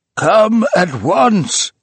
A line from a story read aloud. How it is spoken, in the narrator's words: he cried